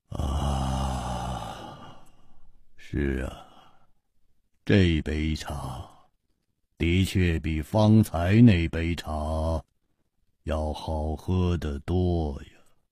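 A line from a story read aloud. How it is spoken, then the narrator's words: Murmuring. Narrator (Chinese): 喃喃地说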